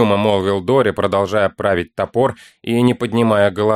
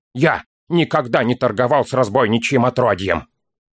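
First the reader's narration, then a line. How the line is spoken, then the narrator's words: Snapping. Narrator (Russian): огрызнулся Дори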